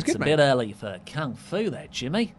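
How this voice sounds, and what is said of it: Attempted Australian accent. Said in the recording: “can you do an Australian accent ... Well, you tried.”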